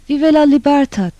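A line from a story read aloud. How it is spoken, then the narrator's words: Cried out. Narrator (Turkish): Sonra yine haykırdı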